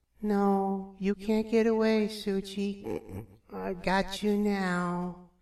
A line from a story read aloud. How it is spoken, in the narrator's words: She began to mumble in her sleep